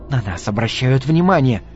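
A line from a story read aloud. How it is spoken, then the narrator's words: Hissed. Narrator (Russian): прошипела Джилли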